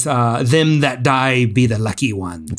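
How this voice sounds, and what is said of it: Put-on pirate accent. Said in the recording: “attempt my best pirate accent”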